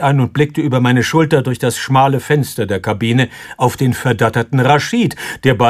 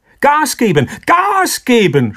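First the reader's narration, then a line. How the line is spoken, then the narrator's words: Screamed. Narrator (German): schrie ich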